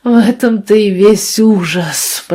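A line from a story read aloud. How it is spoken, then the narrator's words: Moaned. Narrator (Russian): простонал он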